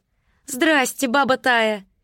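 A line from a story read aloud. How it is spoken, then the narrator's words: Shouted greeting. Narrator (Russian): крикнула та, что плела другой волосы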